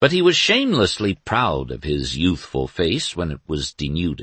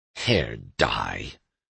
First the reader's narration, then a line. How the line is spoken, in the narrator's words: said Doremus bitterly